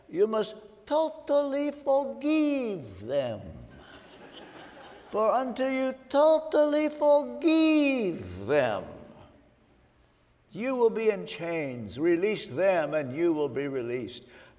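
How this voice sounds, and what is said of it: Imitated Romanian accent. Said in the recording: “I can hear him in his Romanian accent.”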